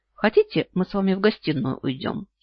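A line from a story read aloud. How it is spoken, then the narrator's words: Giggling. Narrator (Russian): хихикаю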